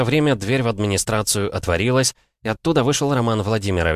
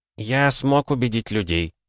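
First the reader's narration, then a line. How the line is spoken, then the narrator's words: Calm. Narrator (Russian): спокойно произнес он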